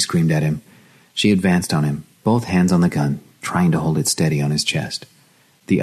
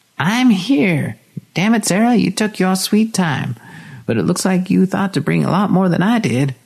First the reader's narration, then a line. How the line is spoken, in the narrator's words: Linda cackled wildly